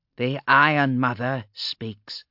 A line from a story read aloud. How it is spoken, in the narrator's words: said the woman, her voice creaking like rope in a wind